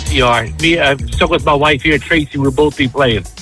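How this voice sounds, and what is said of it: Slight Sunderland English accent. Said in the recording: “I'm getting a hint of an accent there ... Where's that accent from? ... Originally from Sunderland in England.”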